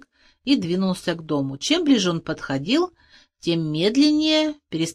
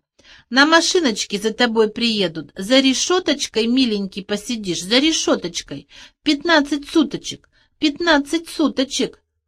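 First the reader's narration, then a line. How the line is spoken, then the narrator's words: Giggling. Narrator (Russian): она хихикнула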